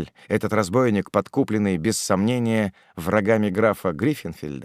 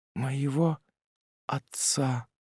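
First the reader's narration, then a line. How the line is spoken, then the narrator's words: Whispered. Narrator (Russian): прошептала она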